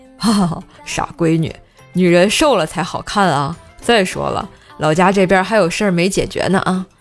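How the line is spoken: Father laughing. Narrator (Chinese): 我老爸笑着说

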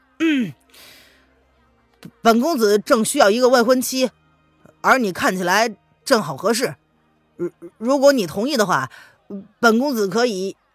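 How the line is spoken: Half-smiling question. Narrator (Chinese): 林渊似笑非笑的看着林奇问

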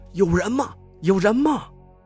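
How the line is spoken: Anxious calling. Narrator (Chinese): 喊了几句，我有点着急了

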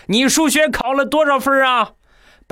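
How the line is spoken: Father roaring loudly. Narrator (Chinese): 我爸冲我大声的吼一声

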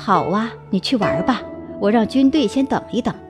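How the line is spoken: Foolish chuckle. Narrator (Chinese): 白痴一样的高伟呵呵一笑，说

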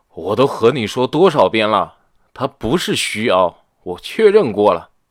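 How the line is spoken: Somewhat angry yell. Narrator (Chinese): 刘明有些生气的吼道

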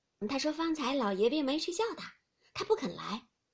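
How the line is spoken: Smiling reply. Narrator (Chinese): 李氏 笑着回道

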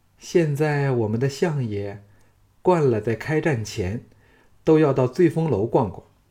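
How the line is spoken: Smiling. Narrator (Chinese): 赵志笑着说

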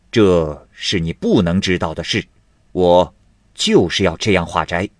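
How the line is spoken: Stern, harsh. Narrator (Chinese): 厉声的说道

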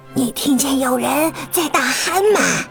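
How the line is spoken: Soft question. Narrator (Chinese): 鲁莫 轻声问道

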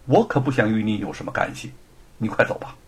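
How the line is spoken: Cold. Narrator (Chinese): 吴承恩也冷冷的说

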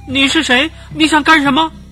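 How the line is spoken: Loud question. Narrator (Chinese): 他大声的问

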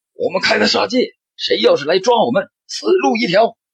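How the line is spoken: Furious shouting. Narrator (Chinese): 两名歹徒也是红了眼睛，大声的喊道

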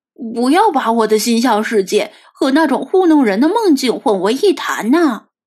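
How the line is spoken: Sudden angry roar. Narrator (Chinese): 菲马斯突然提高了音量，大声咆哮道

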